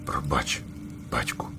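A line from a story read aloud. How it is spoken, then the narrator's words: Whisper, small owl. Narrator (Ukrainian): прошепотів малий пугач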